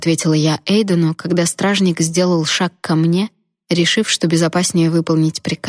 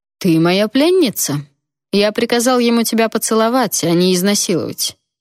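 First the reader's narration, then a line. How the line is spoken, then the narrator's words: Bored retort. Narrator (Russian): скучающим тоном парировал тот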